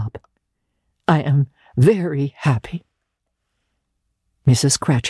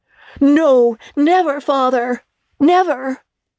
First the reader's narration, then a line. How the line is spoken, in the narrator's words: they all cried again